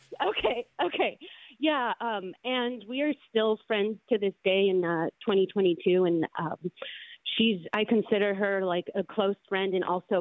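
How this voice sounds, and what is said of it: Nervous, shaking voice. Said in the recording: “I'm even nervous now. My voice is shaking”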